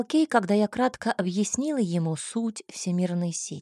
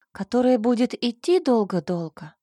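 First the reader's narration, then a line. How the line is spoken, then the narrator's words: Sighing. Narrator (Russian): вздохнула я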